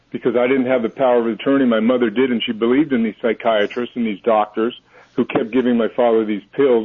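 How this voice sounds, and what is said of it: Trembling, emotional voice. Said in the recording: “My voice is a little trembling”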